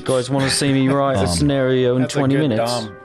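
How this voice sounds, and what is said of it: Impression of a fellow player. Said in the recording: “That's a good Dom impression.”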